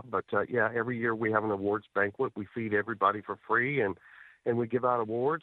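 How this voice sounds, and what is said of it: Voice of someone still sick. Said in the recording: “as you can tell by my voice, I'm still not quite over it ... I was sick”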